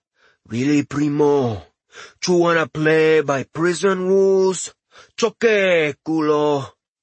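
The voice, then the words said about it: Thick Latin accent. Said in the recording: “In a thick Latin accent, Nexus asked,”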